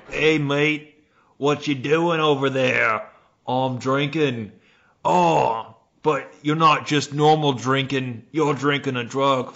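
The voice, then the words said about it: Put-on Australian accent. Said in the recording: “That sounds real Australian... Sounds real Australian there... I only have one accent. It's just like a weird combination of Cockney Australian and Scottish... it's almost Irish”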